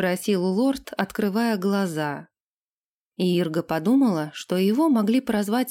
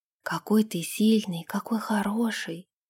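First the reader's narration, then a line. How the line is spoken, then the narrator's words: Whispering into the ear. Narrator (Russian): шептала она ему в бархатное ухо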